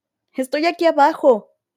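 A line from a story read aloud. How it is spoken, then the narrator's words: Louder shout sounding weaker. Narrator (Spanish): gritó más fuerte, pero por alguna razón su voz sonó más débil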